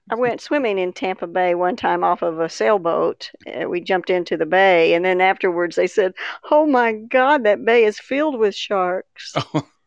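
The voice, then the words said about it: Texan accent. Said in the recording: “they can tell by my accent ... you didn't leave Texas, so you didn't lose your accent.”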